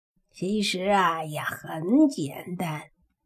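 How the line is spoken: Slow, unhurried. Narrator (Chinese): 黑猪缓缓的说道

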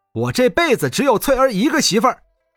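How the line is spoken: Loud and defiant. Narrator (Chinese): 年轻人脖子一挺，大声说道

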